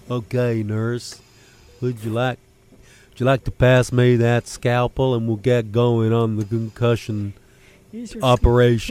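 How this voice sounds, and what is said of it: Put-on St. Louis, Missouri accent. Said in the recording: “From St. Louis, Missouri, just to get the accent in my... In my head there”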